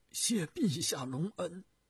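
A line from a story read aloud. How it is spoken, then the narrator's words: Choked with emotion. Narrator (Chinese): 徐达感慨万分，声音哽咽地说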